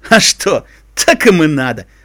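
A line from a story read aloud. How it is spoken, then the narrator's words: Gloating snort. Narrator (Russian): злорадно хмыкнул Гус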